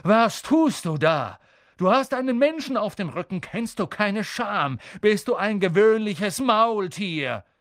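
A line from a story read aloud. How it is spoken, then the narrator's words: Thundering. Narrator (German): donnerte Bane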